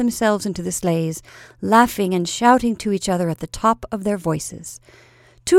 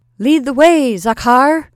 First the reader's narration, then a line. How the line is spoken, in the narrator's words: cried Nicholas